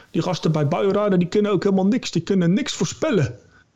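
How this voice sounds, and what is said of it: Imperfect imitated Rotterdam accent. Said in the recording (Dutch): “accent was niet helemaal goed nagedaan ... uit Rotterdam dan? Rotterdam.”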